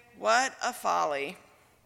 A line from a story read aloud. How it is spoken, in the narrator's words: sigh and say